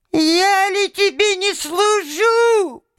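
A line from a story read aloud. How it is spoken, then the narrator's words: Thin high voice. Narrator (Russian): прибавил он тоненьким голоском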